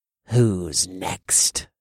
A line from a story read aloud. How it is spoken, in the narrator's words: growled